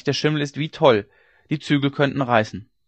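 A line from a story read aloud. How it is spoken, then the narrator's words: Servant shouting. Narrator (German): rief der Knecht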